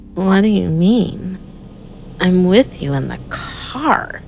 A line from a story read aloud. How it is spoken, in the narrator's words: she slurred